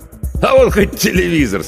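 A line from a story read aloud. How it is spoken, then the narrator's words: Laughing. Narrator (Russian): смеялся Федор Иванович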